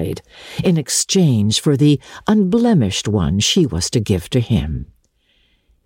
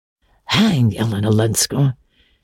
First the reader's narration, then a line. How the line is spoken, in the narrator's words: he grumbled